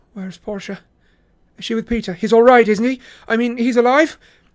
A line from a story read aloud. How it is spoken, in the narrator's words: blurt out